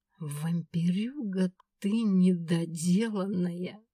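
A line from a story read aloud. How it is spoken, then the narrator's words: Muttered through teeth. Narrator (Russian): процедила я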